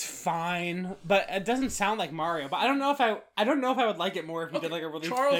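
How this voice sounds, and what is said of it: Usual voice. Nothing is said of it.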